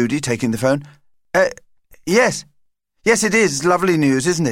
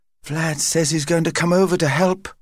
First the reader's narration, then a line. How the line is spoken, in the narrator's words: whispered Paul to his sister